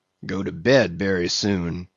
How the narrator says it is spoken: he mumbled

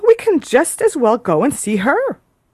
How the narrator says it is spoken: cried Miss Steele

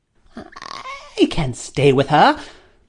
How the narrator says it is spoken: he answered crossly

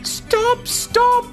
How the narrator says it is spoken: pleaded

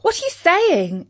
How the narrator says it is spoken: exclaimed Katie

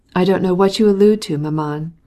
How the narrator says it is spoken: replied the son coldly

